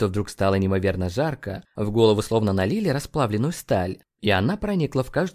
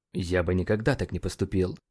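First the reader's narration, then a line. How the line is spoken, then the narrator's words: Mumbling. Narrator (Russian): пробормотал он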